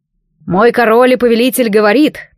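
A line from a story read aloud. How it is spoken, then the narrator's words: Solemn, loud, monotone recitation. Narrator (Russian): торжественно, громко и слегка монотонно начал гонец заученную намертво речь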